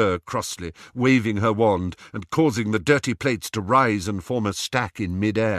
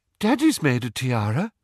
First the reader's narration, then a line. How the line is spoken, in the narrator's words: piped up Luna